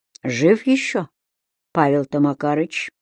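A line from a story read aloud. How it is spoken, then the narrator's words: Barely audible interruption. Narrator (Russian): еле слышно прервал отца Агей в убийственной тишине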